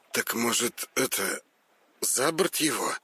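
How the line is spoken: Suggestion. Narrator (Russian): Предложил Петр, неуверенно

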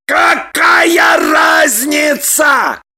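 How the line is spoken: Roar. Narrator (Russian): Взревел Роман

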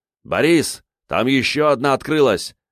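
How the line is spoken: Shouting. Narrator (Russian): крикнул

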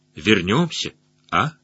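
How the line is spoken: Quiet. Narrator (Russian): другой тихонько скажет

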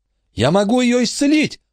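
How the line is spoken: Exclaimed. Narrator (Russian): воскликнул Майкл

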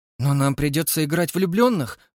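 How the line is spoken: Flustered babble. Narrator (Russian): пролепетала она растерянно

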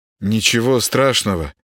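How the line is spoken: Uncertain. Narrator (Russian): неуверенно ответил Володаров

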